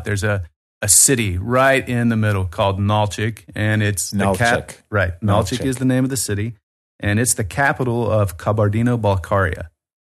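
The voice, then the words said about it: Southern American drawl. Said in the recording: “Nothing like Kabardino-Balkaria with that southern drawl.”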